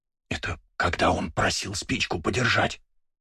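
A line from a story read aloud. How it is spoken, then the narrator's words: Whisper. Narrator (Russian): прошептал Астарот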